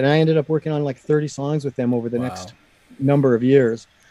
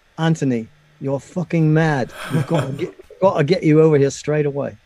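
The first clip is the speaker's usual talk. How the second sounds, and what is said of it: A poor put-on English accent. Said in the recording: “Terrible English accent,”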